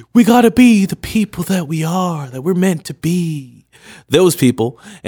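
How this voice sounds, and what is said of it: Imitated hippie voice. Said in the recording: “that was my hippie imitation”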